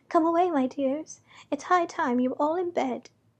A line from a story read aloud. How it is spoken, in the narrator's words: a canary called out in a trembling voice